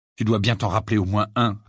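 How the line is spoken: Annoyed. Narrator (French): répondit Harry d'un ton agacé

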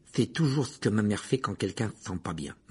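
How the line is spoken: Muttering. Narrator (French): marmonna Ron

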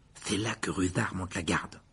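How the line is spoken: Muttered. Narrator (French): marmonna Ron

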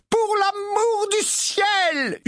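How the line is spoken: Screaming. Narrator (French): hurla Mrs

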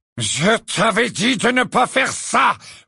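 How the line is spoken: Roared. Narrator (French): rugit Lucius Malfoy

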